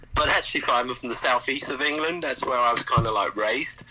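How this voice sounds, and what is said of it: English accent. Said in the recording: “you have an accent. ... an English accent”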